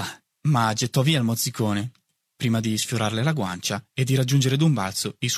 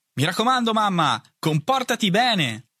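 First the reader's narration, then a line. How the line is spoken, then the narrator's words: Shouted from above. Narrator (Italian): gridò dall'alto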